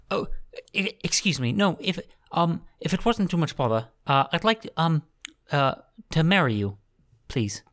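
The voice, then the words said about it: Hugh Grant impression. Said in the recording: “my Hugh Grant impression”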